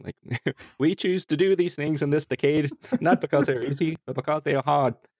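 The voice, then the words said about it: Imitates another person's voice. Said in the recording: “You make me think that Jesus sounded a lot like Jack Kennedy”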